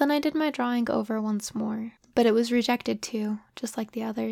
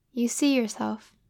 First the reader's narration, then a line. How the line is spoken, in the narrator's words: said